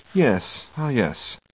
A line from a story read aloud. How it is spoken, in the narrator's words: He sits quietly, occasionally pushing his spectacles back up the bridge of his nose and murmuring